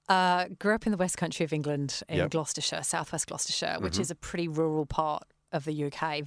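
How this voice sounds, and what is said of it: English accent. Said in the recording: “I'm picking up an accent.”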